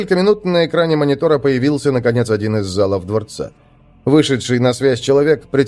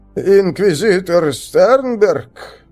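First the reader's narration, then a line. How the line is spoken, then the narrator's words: Astonished, strained cracked voice. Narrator (Russian): изумленно произнес человек надсадным треснувшим голосом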